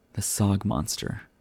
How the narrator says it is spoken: Sal gloomily said

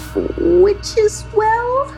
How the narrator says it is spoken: she squeaked out

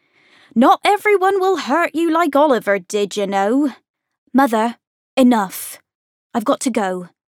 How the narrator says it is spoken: Then more loudly

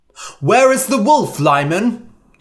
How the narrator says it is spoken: they cried

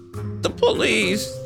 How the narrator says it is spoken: he sobbed

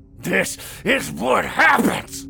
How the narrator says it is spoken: Carl growled and coughed, then started over

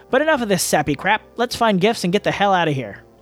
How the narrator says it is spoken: Clearing her throat, she let out a loud sigh before saying

